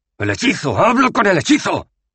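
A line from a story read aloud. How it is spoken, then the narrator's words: Shouting. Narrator (Spanish): gritó Rincewind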